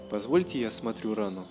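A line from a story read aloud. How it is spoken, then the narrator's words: Calm offer. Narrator (Russian): спокойно предложил Морозов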